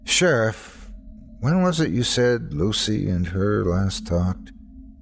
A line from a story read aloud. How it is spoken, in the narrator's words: I asked wearily